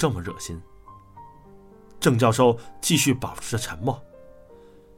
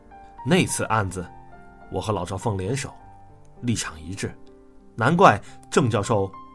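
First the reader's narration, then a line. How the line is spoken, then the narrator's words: Cold. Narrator (Chinese): 我冷冷的继续说道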